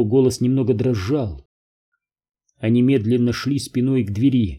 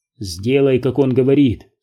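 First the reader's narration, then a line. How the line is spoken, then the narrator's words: Plain. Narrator (Russian): сказал Дэвид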